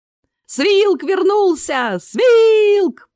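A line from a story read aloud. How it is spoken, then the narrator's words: Piercing shout. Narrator (Russian): пронзительно крикнул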